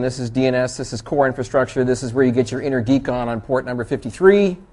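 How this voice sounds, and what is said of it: Canadian accent. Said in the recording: “I have a Canadian accent”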